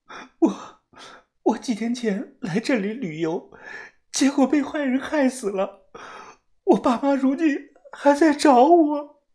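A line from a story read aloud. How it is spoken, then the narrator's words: Sobbing. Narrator (Chinese): 她抽泣着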